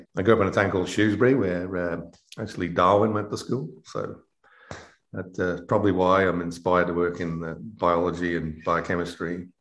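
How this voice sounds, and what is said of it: British English accent. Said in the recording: “we've noted an accent, which is unique, at least to Long Islanders ... I'm originally from the UK”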